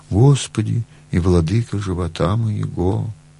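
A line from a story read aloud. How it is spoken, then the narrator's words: Very sad voice. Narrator (Russian): батюшка говорит грустно-грустно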